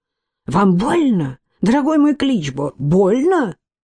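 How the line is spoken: Sharp, unpleasant, probing tone. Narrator (Russian): осведомился он резким, неприятным, пытливым тоном, в котором милосердие было не больше, чем в сердце вампира

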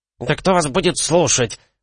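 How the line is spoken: Shrill squeal from behind. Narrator (Russian): взвизгнул сзади Прелис

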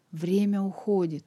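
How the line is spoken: Strangled hiss. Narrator (Russian): сдавленно прошипел Данбар

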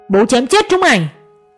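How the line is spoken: Furious man roaring. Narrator (Vietnamese): Ông Kha thét lớn

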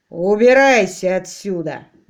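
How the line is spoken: Roaring. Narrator (Russian): взревел капитан Флок

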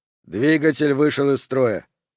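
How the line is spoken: Calm report. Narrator (Russian): спокойно доложил Бранч

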